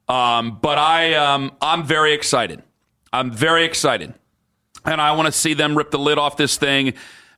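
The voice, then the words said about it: Nervous, excited voice. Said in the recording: “I am as nervous, and you can tell it in my voice, I'm as nervous as all get out.”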